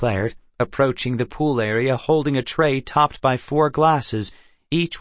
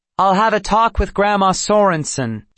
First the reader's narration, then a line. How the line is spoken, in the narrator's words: she said loudly, as if repeating herself